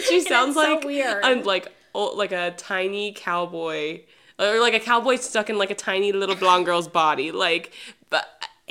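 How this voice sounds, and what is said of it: Southern American accent. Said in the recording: “I'm from the South. I know, I'm sure everyone can hear my accent.”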